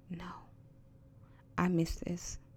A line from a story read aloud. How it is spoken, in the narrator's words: she whispered